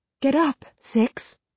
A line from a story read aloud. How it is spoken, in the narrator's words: she says, her voice strained